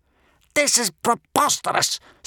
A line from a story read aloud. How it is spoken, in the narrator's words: spluttered Gumboil